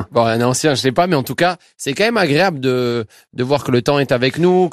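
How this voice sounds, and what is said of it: Toulouse French accent. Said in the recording (French): “Vous avez toujours l'accent toulousain.”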